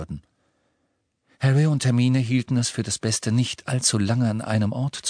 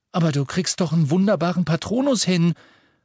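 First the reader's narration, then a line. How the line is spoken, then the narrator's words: Indignant. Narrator (German): sagte Ron entrüstet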